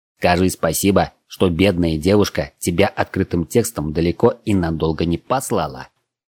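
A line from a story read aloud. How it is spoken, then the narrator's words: Snorting. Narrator (Russian): фыркнул Вельхиор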